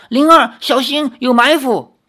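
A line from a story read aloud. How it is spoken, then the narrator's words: Loud warning. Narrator (Chinese): 韩梦慈高声说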